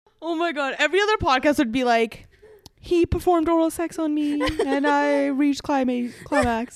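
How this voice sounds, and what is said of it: Usual voice. Nothing is said of it.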